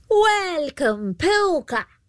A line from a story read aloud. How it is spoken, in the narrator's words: called out